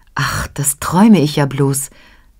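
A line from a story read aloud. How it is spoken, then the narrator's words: Torn between laughing and crying. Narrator (German): sagt sie und weiß nicht, ob sie lachen oder weinen soll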